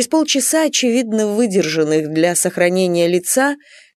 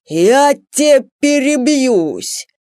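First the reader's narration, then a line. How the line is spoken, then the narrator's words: Full bass roar. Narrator (Russian): Во всю мощь своего баса взревел Степан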